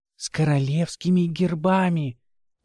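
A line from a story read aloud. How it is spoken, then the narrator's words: Dropping to a whisper. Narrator (Russian): та перешла на шепот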